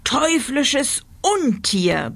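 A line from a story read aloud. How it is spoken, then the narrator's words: Roared furiously. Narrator (German): brüllte er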